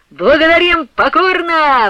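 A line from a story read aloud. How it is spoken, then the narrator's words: Coachmen shouting at full volume. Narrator (Russian): во всю мочь закричали ямщики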